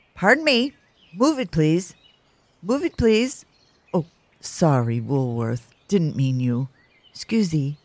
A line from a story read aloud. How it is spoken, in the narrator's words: Gruntly exclaimed